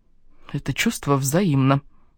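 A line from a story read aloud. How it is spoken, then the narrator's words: Mutter. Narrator (Russian): пробормотала я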